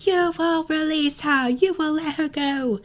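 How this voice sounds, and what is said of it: Character voice with English accent. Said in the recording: “I don't know why I think they all have like an English accent. ... They're all British.”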